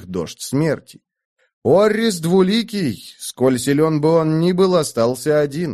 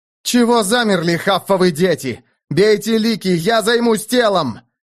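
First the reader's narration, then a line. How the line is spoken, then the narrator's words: Barked. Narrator (Russian): рявкнул он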